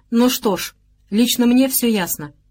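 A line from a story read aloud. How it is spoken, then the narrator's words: Quiet. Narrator (Russian): негромко сказал Антон Палыч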